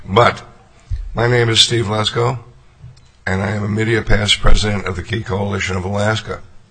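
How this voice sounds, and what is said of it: Strained, failing voice. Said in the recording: “Obviously, I'm losing my voice.”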